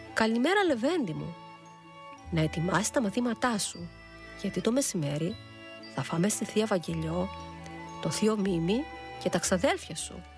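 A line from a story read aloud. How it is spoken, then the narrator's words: Smiling. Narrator (Greek): είπε χαμογελώντας η κυρία Θάλια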